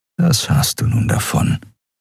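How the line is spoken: Whispered inner voice. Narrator (German): flüsterte eine Stimme in seinem Kopf

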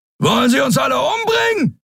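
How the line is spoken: Roaring. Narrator (German): brüllte Sron

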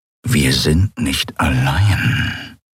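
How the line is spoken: Growled. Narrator (German): knurrte er

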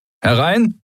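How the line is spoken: Stranger calling out. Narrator (German): rief eine fremde Stimme

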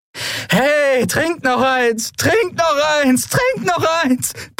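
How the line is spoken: Bellowing. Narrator (German): brüllte sie

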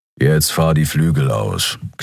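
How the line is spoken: Growling. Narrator (German): knurrte Keru

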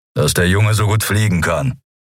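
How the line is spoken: Growling. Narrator (German): knurrte Keru

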